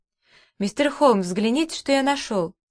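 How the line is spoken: Triumphant exclamation. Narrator (Russian): торжествующе воскликнул я

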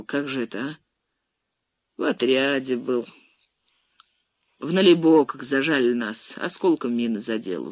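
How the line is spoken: Sighing. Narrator (Russian): вздохнул Васюков

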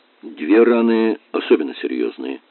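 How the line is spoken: Plain. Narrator (Russian): сказал

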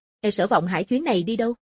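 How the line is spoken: Calm question. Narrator (Vietnamese): Tử Hàn không tức giận mà hỏi tiếp

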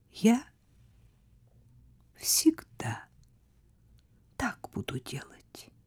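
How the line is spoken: Quiet. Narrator (Russian): тихо сказала она

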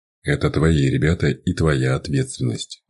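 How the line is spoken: Cold tone, lawyer. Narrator (Russian): ответил адвокат холодным тоном

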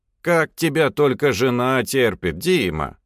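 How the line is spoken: Mock-stern question. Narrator (Russian): В шутку грозно спросила она

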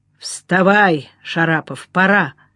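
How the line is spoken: Muffled, viscous voice. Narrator (Russian): глуховато сказал Левченко своим вязким голосом

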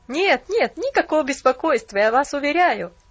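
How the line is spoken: Awkward laugh. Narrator (Russian): Засмеялся молодой человек, стараясь скрыть неловкость

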